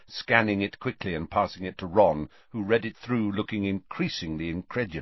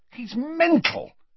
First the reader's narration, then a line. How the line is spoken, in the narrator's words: he said furiously